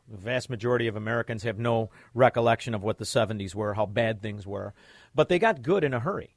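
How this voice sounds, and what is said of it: Chicago accent. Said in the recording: “Excuse my Chicago accent.”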